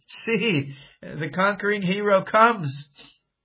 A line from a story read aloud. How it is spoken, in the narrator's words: again they shouted